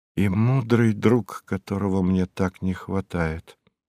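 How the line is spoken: Low voice. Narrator (Russian): сказала вполголоса

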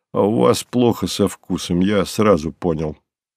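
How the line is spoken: Good-natured grumble. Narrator (Russian): пробурчал он добродушно

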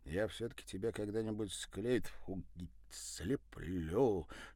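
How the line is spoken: Whisper. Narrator (Russian): шепнул великий скульптор

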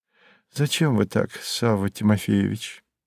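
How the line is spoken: Quiet. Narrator (Russian): сказала она тихим голосом

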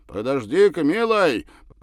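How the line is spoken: Shouting. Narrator (Russian): прокричал Савва молодому рабочему

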